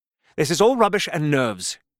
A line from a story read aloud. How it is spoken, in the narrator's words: he exclaimed at length